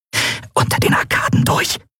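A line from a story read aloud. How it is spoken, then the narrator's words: Hiss. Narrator (German): zischte Endriel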